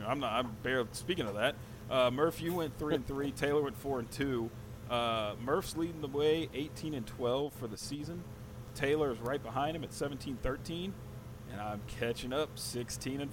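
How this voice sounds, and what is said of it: Announcer-style voice. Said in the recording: “He slid into his announcer voice.”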